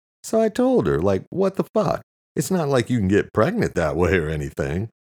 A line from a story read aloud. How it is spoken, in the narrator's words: Luke said, laughing